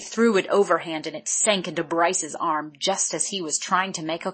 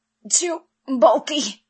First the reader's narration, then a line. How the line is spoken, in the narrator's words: Bryce wheezed weakly